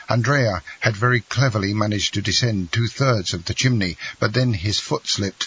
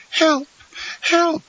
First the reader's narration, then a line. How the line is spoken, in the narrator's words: cried Mademoiselle D'Army